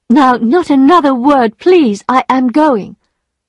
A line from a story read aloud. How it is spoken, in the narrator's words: she cried